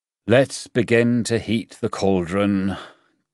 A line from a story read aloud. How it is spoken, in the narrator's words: King Zhou said and sighed